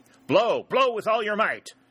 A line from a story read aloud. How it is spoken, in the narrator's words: Ashby exclaimed fiercely